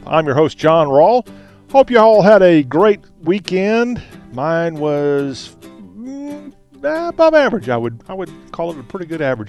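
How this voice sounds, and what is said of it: Southern American accent. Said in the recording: “we not only talk like we do now with a Southern accent”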